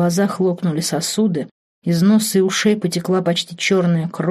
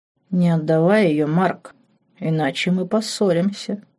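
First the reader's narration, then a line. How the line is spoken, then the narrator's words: Satisfied purring. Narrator (Russian): Удовлетворенно и сыто мурлыкнул демон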